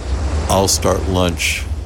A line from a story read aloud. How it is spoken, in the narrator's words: he said flatly